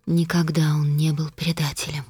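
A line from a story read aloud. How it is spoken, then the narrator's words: Quiet, flat. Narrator (Russian): тихо и бесцветно проговорила Костелла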